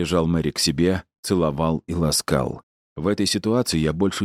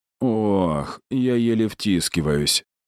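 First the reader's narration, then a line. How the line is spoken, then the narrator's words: Strained groan. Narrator (Russian): застонал Ларри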